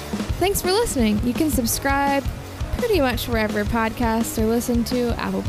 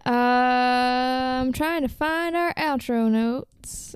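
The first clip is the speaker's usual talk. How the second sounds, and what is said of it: Put-on country western accent. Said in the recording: “I don't know why I said that with a country western accent.”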